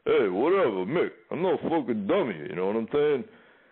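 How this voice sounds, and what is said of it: Tough-guy impersonation voice. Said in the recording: “you want to hear impersonation?”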